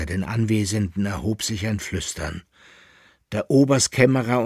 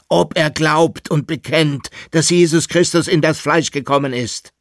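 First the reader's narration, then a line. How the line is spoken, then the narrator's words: Emperor, extremely loud voice. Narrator (German): rief der Kaiser jetzt mit überlauter Stimme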